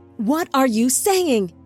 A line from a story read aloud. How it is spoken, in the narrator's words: Enoch yelled